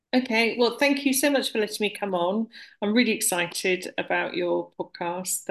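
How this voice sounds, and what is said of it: British accent. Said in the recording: “I'm based in the UK, as you can probably tell from my accent.”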